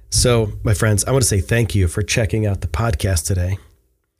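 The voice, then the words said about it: Congested voice from head cold. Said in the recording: “thank you for sticking with me while I've been sick. You can still hear it in my voice. I still have a crazy head cold going on.”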